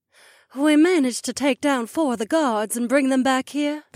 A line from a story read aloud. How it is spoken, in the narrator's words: the Nyx woman sighed